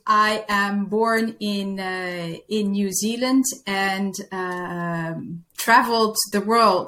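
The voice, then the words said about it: Slight Dutch accent. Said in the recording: “a bit of a Dutch accent I'm hearing? ... my accent may be a little bit Dutch. There should be some American”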